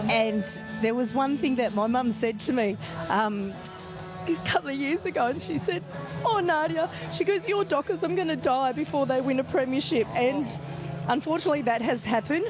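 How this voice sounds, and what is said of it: Tearful, emotional, voice breaking. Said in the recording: “getting emotional now. I'm crying on the radio”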